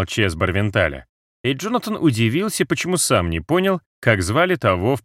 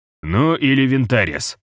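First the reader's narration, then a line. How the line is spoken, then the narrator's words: Snorted. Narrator (Russian): хмыкнул Барвенталь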